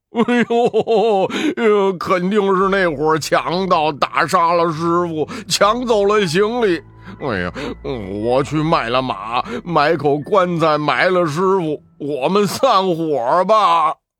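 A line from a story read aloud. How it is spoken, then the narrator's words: Wailing with grief. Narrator (Chinese): 八戒捶胸痛哭说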